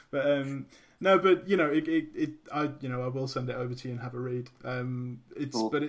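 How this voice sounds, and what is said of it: British accent. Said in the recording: “you're British. I mean, the accent helps.”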